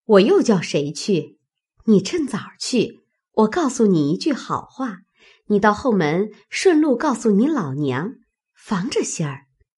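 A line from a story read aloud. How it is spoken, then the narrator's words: Laughing. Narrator (Chinese): 翠墨笑道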